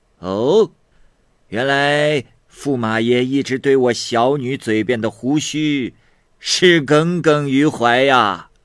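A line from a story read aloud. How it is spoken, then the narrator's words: Laughing heartily. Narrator (Chinese): 这国王听完后大笑说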